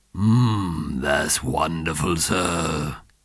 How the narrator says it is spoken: he purred

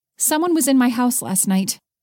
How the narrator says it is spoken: Haley blurted out

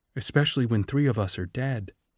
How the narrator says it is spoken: said Lysistrata sadly

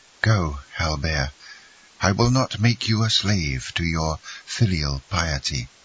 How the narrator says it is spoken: replied Mercedes, sighing

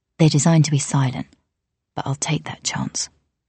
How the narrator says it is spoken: Arthi murmured

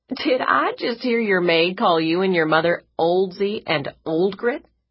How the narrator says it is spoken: Della Lee asked, laughing

